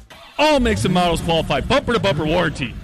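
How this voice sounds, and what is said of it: Booming big radio announcer voice. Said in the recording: “That, Ross, is called a big radio voice. You need it when talking about a big deal.”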